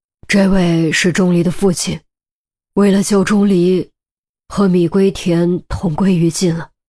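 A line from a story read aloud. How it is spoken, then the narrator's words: Deep grave voice. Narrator (Chinese): 陆明沉声道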